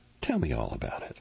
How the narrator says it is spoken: she says warmly, determined

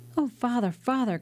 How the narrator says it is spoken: cried the young man

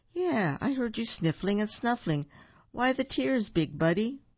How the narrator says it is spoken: With a sniffle and a snuffle and two more tears for good measure, Buford moaned

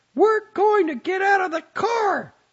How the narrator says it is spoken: she shouted at him, almost into him

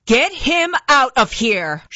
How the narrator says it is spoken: shouted Captain Cullen

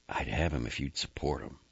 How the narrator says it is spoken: Under her breath, she said

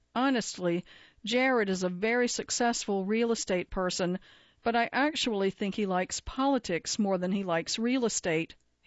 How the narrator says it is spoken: he told the audience

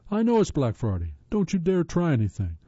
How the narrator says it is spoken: he yelled

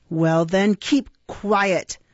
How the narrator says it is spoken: rejoined Sykes, with a growl that, like he was accustomed to use when addressing his dog

